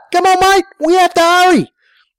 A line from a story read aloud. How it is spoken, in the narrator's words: he yelled at Dingo